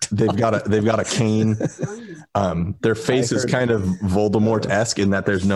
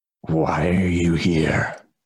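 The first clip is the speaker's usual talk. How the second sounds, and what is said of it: Raspy character voice. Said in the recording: “in this raspy voice”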